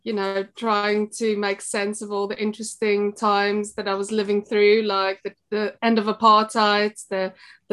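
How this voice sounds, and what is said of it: South African accent. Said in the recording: “As you can tell from my accent, I was born in South Africa”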